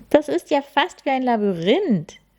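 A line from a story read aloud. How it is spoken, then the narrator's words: Excited exclamation. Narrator (German): rief Lilly begeistert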